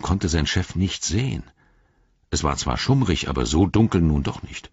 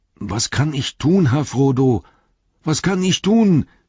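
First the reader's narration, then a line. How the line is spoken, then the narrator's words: Call out. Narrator (German): rief Sam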